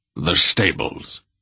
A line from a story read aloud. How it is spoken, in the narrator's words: he said sharply